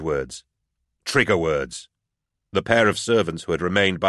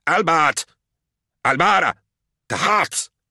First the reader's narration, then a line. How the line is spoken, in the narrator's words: Molitor, frantic with pain and anger, yelled